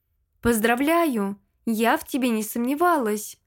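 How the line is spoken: Exclaimed. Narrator (Russian): воскликнула дочь герцога

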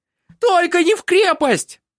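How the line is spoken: Wail. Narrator (Russian): завопила

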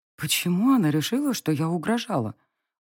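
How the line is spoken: Very quiet query. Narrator (Russian): уточнила я тихо-тихо, зная, что девочка услышит

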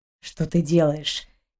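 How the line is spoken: Quiet close grumble. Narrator (Russian): тихо проворчал ей в затылок капитан

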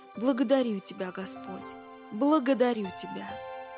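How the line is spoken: Calm, satisfied old man. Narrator (Russian): Старичок заулыбался, спокойно и с удовлетворением сказав

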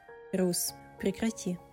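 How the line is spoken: Whisper. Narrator (Russian): прошептала она

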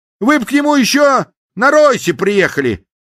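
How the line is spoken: Exclamation. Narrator (Russian): воскликнул советник

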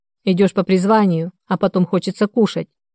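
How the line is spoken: Smirking snort. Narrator (Russian): хмыкнул представитель правоохранительных органов

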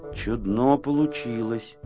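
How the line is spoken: Mumble. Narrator (Russian): пробормотал Незнайка

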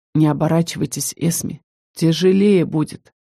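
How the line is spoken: Quiet. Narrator (Russian): Заргар взял меня за руку и тихо сказал

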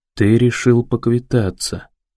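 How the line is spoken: Quiet repetition. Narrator (Russian): тихо повторяет Уоллес

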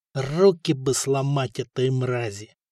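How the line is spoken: Anguished groan. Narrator (Russian): простонал Коста, которого захлестнули давно забытые воспоминания

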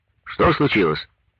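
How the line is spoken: Stern question over phone. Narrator (Russian): строго спросил он в трубку

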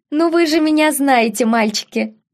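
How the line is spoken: Ringing laugh. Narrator (Russian): Звонко рассмеялась леди Мэри

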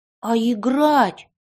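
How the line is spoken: Exclaimed. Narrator (Russian): воскликнул Никита

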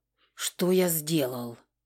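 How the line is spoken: Groaning. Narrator (Russian): простонал ликтор

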